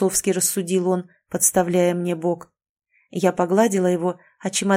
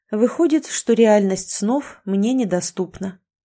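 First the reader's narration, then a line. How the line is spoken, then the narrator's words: Sighing. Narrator (Russian): вздохнула еще раз и добавила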